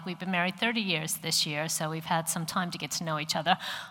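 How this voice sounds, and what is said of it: American accent. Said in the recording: “I come from America, if you're wondering what the accent is ... I know that I still sound American to you”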